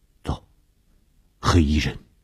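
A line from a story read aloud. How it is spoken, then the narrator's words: Low voice. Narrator (Chinese): 我低声地说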